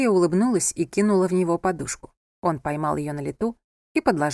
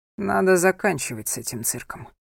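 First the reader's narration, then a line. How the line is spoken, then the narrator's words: Tired speech. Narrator (Russian): устало произнес Анхель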